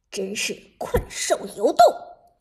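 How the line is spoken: Deep, low voice. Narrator (Chinese): 剑客沉声说道

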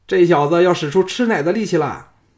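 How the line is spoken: Shout. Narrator (Chinese): 黑面神的人叫道

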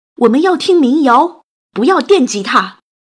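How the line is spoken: Angry crowd shouting. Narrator (Chinese): 他们直接愤怒的大喊

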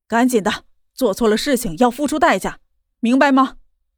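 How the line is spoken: Roaring. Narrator (Chinese): 他对着江依依吼道

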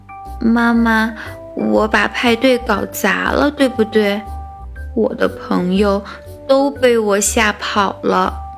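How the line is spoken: Quiet. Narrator (Chinese): 爱哭公主她小声地说

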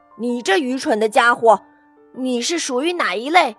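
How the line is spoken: Roaring lion. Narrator (Chinese): 狮子大吼一声说

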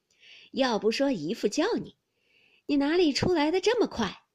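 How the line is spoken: Laughing. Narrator (Chinese): 裴明也笑道

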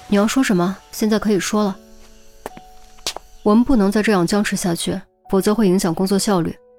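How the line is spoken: Cool, indifferent. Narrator (Chinese): 淡淡的说

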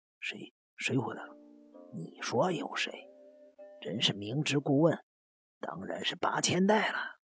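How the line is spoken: Deliberately hushed. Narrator (Chinese): 直纪故意将声音压得很低

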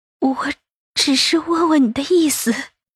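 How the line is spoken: Trembling voice. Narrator (Chinese): 杜恒声音微颤着说道

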